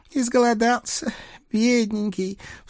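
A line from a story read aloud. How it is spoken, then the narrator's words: Sobbing old woman. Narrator (Russian): всхлипнула бабка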